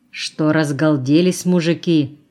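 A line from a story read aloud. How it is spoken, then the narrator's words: Mock-stern question. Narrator (Russian): спросила притворно строго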